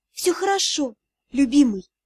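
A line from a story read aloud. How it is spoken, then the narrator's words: Soft whisper. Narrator (Russian): тихо прошептала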